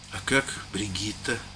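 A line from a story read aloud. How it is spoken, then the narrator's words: Quiet, awkward question. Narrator (Russian): спросил он тихо, с неловкой улыбкой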